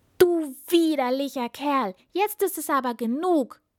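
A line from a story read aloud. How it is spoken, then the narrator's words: Angry princess shouting. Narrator (German): rief die Prinzessin zornig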